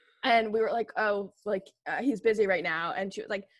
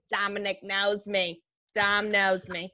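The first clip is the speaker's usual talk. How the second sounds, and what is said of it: Imitates another person's voice. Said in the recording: “Your accent for her is so good.”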